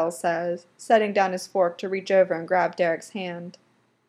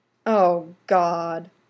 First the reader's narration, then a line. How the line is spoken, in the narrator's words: his dad groans